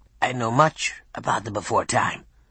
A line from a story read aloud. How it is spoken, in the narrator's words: Pet squeaked in a dry, raspy voice